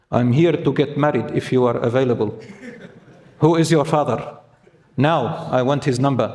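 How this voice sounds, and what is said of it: Put-on Lebanese accent. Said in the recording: “I put on the accent. I'm Lebanese, just I hear it a lot from there”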